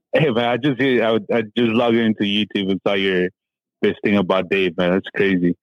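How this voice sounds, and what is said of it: Slight local Californian accent. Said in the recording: “You got a little accent. ... you don't have a foreign accent. You have a Gilroy accent.”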